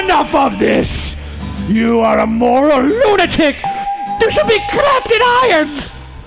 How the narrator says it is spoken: The crowd barks like a mob of seals

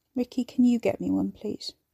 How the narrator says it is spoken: He sighed

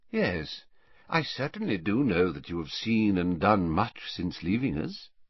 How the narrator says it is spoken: he said quietly

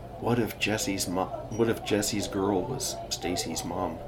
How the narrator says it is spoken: whisper

